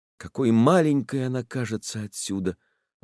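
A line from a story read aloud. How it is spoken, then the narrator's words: Sighed. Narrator (Russian): вздохнул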